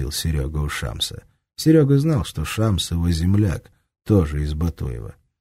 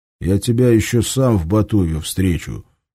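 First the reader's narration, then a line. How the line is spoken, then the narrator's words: Menacing mutter. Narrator (Russian): с угрозой пробурчал Шамс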